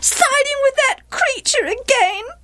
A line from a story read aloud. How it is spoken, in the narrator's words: wailed Gilead's wife